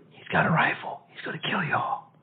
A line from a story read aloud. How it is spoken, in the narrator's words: a relative whispered